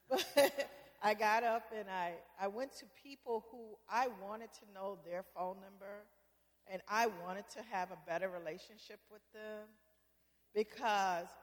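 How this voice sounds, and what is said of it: Southern US accent. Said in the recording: “I have a southern accent. Yes, I do, because I'm from the South.”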